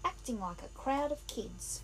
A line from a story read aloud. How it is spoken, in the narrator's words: he said scornfully